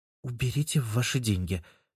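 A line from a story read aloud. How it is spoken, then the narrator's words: Quiet. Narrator (Russian): тихо произнесла Оксана Юрьевна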